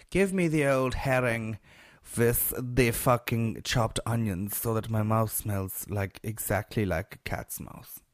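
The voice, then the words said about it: Put-on German or Dutch accent. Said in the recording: “What sort of accent is that? I think it is some sort of gay German. ... but I'm actually Dutch.”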